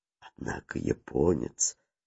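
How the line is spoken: Whispering. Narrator (Russian): Иван Кузьмич шепнул Ксюте

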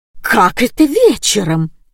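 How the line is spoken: Shrill squeal. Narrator (Russian): завизжала Марина Степановна

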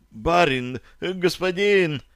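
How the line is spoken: Frightened, hesitant babbling groom. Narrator (Russian): испуганно и неуверенно залепетал конюх

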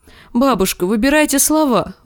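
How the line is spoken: Pleading. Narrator (Russian): взмолилась Марджери

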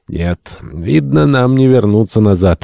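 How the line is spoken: Dejected. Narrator (Russian): уныло промолвил Полтон

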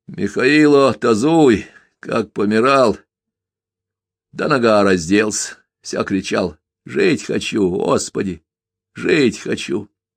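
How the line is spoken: Dull, sudden voice. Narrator (Russian): Неожиданно заговорил Калина тусклым голосом, словно проснулся внезапно

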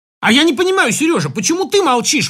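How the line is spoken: Exclaimed. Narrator (Russian): воскликнула Любовь Сергеевна

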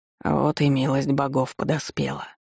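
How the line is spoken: Hoarse man. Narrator (Russian): хрипло произнес мужчина

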